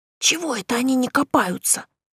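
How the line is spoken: Whispered objection. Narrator (Russian): тоже шепотом возразил Савося

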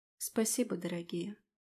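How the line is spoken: Sad whisper. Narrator (Russian): грустно прошептала

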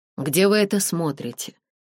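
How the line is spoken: Strained calm question. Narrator (Russian): спросил Дэрил, изо всех сил стараясь говорить спокойно

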